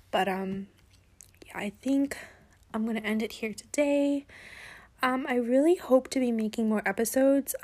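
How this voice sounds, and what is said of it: Dry, worn-out voice. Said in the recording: “my throat is getting very dry and like I'm getting a lot of cough attacks, which is why my voice is getting shot”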